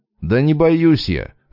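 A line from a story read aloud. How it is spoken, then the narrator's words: Irritated reply. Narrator (Russian): раздраженно поморщившись, отозвался я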